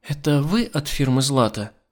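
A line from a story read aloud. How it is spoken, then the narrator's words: Gentle question. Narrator (Russian): нежным голосом спросила она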